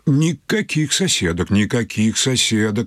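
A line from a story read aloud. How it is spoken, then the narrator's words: Stern doctor. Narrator (Russian): строго сказал детский доктор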